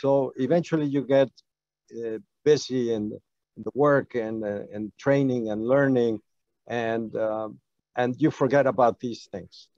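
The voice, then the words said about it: Non-native English accent. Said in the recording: “I'm an immigrant. I speak with an accent.”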